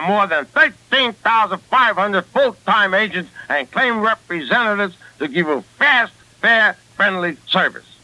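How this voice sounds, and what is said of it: Brooklyn accent. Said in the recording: “Does that sound like a bad Brooklyn accent to you? To me, it sounds like a beautiful Brooklyn accent.”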